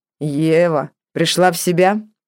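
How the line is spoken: Strong, pleasantly husky male voice. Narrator (Russian): раздался сильный, с приятной хрипотцой мужской голос

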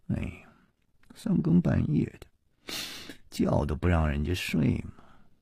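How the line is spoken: Sleepy muttering. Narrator (Chinese): 夜里还喃喃地嘀咕着说

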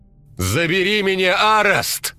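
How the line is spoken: Ecstatic shout. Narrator (Russian): восторженно закричал

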